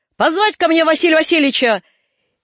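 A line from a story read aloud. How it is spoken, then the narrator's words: Shouted. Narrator (Russian): крикнул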